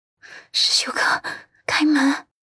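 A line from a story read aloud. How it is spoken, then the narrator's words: Trembling, suppressed panic. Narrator (Chinese): 压住内心那些山崩般的慌乱，颤声道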